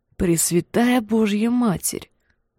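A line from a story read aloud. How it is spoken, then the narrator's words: Whisper. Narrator (Russian): прошептала она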